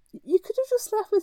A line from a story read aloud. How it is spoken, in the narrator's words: she laughed, the sound sparkled with delight